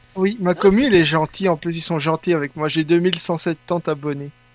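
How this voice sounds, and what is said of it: Slight Belgian French accent. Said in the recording (French): “tu avais un petit accent. Tu, tu nous viens aussi de Belgique.”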